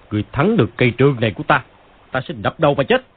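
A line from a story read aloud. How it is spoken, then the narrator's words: Angry. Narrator (Vietnamese): Phàn Nhất Ông tức giận nói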